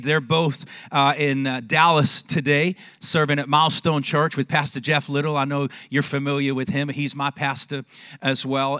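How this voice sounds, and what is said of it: English accent from Manchester. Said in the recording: “the strangest Longview accent you've ever heard... I was born in Manchester, England... this English boy”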